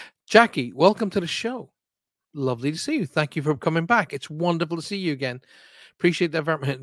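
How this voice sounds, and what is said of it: Usual voice. Nothing is said of it.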